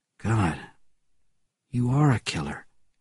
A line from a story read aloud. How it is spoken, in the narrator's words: said the brother quietly